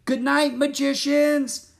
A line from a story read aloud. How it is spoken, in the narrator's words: Annie shouted